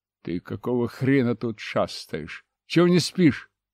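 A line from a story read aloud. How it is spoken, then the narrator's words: Angry question. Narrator (Russian): сердито спросил я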